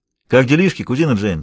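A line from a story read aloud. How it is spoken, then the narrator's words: Cheerful, slightly trembling voice. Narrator (Russian): спросил он весело, но Томми уловил в его голосе легкую дрожь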